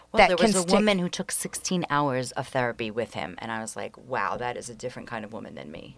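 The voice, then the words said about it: Brooklyn accent. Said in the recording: “Where's your accent from? ... Brooklyn.”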